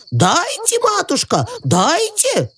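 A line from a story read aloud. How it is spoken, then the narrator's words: Shouting. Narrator (Russian): кричали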